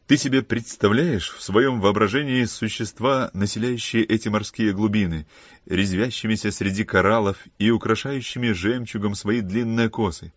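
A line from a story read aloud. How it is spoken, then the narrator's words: Laughing question. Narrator (Russian): Смеясь, осведомился Филипп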